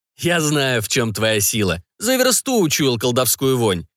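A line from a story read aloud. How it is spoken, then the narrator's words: Laughing. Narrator (Russian): засмеялся Арно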